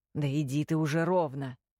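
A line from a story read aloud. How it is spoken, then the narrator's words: Grumbled. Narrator (Russian): пробурчал Чарли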